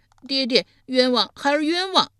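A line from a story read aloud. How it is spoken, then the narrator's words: Loud cry. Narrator (Chinese): 申生 遂大声呼道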